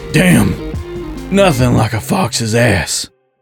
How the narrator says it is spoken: Jake grunted

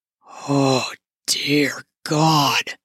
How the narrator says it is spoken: he muttered through pants

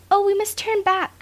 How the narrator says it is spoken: cried Nan

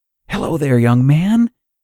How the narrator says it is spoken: the smiling man exclaimed

